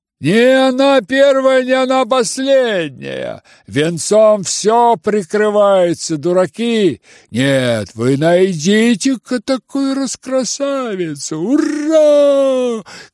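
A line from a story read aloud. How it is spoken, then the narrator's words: Crowd shouting. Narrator (Russian): кричали ближайшие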